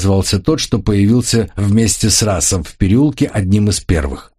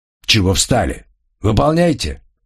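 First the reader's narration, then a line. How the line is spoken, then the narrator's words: Thug's growl. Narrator (Russian): прорычал громила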